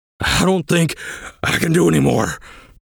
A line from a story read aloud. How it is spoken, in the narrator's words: Brig panted